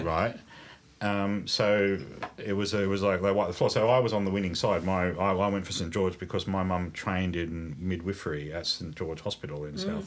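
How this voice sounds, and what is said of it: Slight English-sounding accent. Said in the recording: “your accent has a slight English vibe to it”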